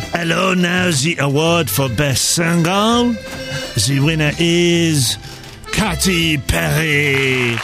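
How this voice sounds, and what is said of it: Put-on French accent. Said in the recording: “you can do a French accent much better than me”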